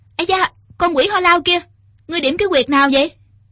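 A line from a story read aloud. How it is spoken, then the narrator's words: Mock-indignant girl's shout. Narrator (Vietnamese): Thiếu nữ cười thầm, giả vờ, quát lên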